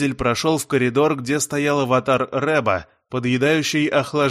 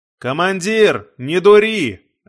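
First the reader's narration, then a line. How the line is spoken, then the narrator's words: Shout. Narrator (Russian): закричал Дизель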